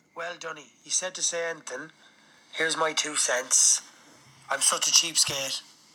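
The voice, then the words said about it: Scottish-sounding accent. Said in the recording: “I'm going to guess this guy's Scottish ... a guy with a Scottish accent, Welsh accent, I don't know”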